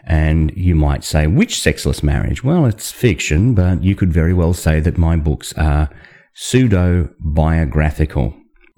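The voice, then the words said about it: Australian accent. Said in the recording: “Yep, that's where this accent comes from. I'm an Australian”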